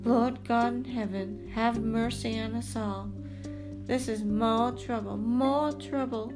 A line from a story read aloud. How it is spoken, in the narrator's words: moaned